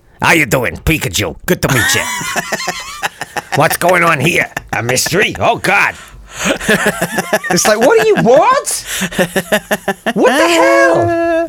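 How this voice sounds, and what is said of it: New Yorkish Detective Pikachu voice. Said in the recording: “a sort of fairly New Yorkish ... this is obviously this is an exaggeration, but a very mild one ... This is Pikachu's voice”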